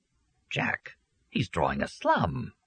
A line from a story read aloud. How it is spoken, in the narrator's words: Leo exclaimed